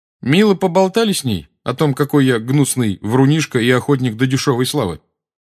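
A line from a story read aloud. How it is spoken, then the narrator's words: Loud question. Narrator (Russian): громко спросил Гарри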